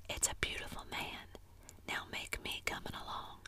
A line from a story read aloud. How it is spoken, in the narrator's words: She was satisfied with the monster and whispered